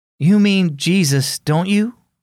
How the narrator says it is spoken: Ian sighed

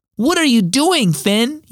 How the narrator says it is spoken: yelled Troy

